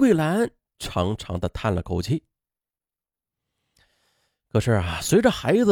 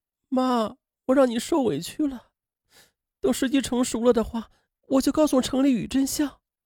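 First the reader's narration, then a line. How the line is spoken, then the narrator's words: Choked with tears. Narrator (Chinese): 潘明莹不仅哽咽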